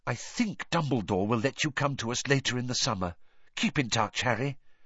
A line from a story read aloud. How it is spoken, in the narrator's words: whispered in his ear